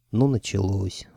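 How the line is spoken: Sighing. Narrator (Russian): вздохнула Маша

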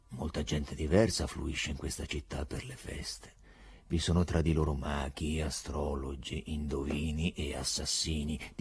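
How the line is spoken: Monotonous voice. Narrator (Italian): diceva con voce monotona il procuratore

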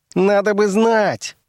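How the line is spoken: Furious shriek. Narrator (Russian): завизжал он вне себя от гнева

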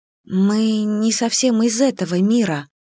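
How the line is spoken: Unsure, awkward half-whisper. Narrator (Russian): неуверенно и как-то неуклюже проговорила я полушепотом

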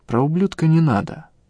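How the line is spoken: Calm. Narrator (Russian): повторил я спокойно

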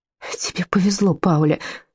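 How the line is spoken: Tearful, choked speech. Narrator (Russian): сквозь слезы выговорила она

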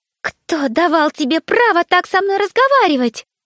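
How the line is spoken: Bride shrieking. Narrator (Russian): взвизгнула невеста

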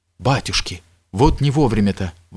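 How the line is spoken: Exclamation. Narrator (Russian): воскликнул он

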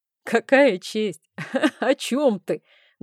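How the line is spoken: Loud laughing. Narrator (Russian): громко рассмеялся Рейн

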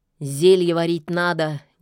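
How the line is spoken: Discontented grumble. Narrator (Russian): недовольно буркнула Яга

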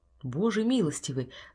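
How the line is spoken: Breathless whisper. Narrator (Russian): задыхаясь, прошептал Форестер

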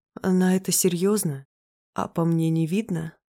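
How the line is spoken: Hoarse, strained voice. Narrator (Russian): Голос хриплый, слова даются с трудом

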